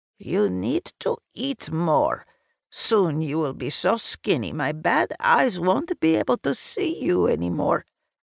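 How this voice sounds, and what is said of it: East European accented character voice. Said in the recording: “she says in her East European accent.”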